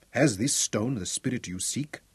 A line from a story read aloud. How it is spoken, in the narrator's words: Butzo asked quietly